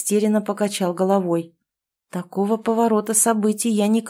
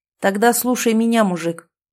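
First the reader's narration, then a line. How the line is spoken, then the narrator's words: Angry. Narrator (Russian): зло проговорил Артем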